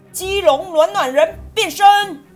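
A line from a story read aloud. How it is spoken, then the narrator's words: Shouting loudly. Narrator (Chinese): 在地人在地大叫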